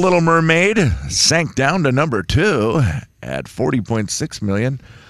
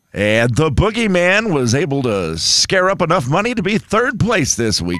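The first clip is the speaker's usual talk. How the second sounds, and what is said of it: Radio DJ announcer voice. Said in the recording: “do it in radio DJ voice”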